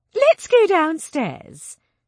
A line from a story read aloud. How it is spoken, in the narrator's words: Sylvia said rather too brightly